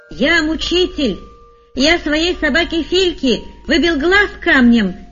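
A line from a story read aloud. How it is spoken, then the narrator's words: Shouting. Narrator (Russian): кричал один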